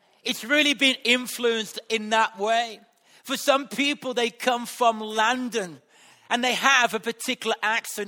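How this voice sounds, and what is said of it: Black Country English accent. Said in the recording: “I've got a very eloquent accent, and it's because where I was brought up in West Bromwich ... the black country”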